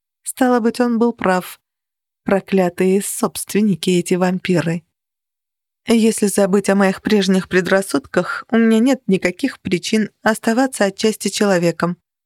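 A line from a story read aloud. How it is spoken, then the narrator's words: Even, level voice. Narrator (Russian): ровным голосом продолжала я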